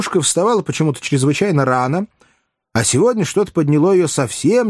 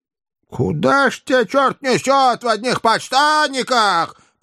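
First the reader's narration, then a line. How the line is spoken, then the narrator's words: Shrill squeal. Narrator (Russian): провизжала Аннушка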